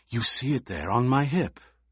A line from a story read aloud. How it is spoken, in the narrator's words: Fade Rautha whispered